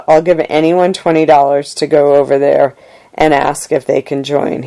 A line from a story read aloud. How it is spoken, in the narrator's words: he said